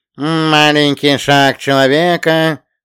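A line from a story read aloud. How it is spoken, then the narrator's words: Nasal drawl. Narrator (Russian): загнусавил биолог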